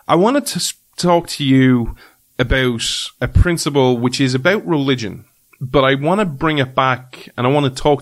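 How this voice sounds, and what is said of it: Strong accent, 'three' sounds like 'tree'. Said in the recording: “others message me about my accent. The way I pronounce certain words. Yes, I know I say tree and tree and you don't know the difference”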